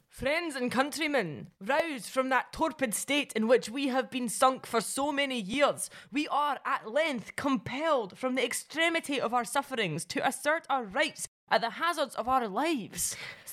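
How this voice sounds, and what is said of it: Central Belt Scottish accent. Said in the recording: “can you do the accent of a Central Belt artisan weaver?”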